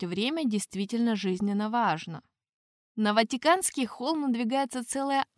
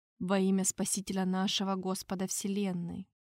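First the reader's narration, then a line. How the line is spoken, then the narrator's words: Quiet recitation. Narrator (Russian): Тихо прочел король Гастон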